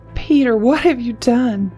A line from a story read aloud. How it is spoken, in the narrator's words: she cried